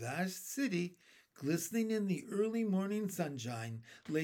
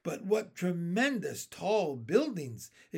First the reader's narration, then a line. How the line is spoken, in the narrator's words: exclaimed the ladybug